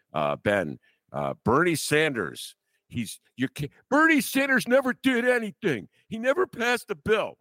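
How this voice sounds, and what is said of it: Mocking imitation of a centrist. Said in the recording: “my imitation of a centrist”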